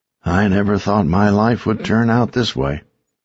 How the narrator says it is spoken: he said to me one afternoon, his voice hoarse

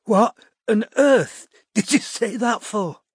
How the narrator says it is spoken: she wheezed

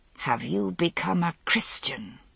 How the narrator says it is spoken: she asked, hissing with anger

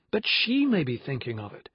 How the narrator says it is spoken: said Jessie sharply

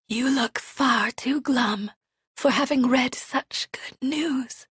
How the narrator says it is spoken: she whispers

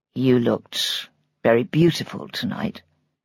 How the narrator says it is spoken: he said quietly

